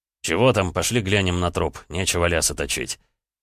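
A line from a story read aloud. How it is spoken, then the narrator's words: Rough, fed up. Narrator (Russian): Орлову надоело слушать пререкания между мужчинами, и он грубо сказал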